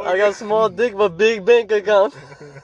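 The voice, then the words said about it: Put-on accent. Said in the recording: “you got an accent, dude”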